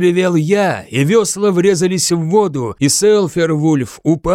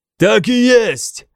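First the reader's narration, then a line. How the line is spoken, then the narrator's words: Yelled. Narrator (Russian): заорал я в ответ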